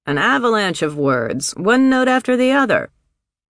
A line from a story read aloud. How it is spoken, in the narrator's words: From his room, Cap called out